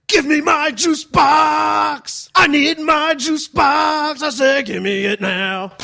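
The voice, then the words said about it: Sylvester Stallone impression, shouting. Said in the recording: “I was imitating Sylvester Stallone asking for a drink.”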